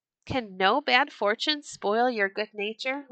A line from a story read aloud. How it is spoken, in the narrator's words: laughed Eric